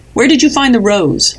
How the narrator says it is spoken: snapped

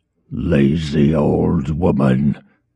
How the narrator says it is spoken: Veles rasped

